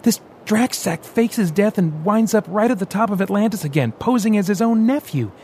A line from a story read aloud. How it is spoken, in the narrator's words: he said, raising his voice